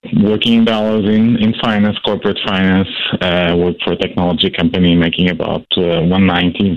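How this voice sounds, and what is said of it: Foreign accent. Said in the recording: “obviously, by my accent, I was born overseas”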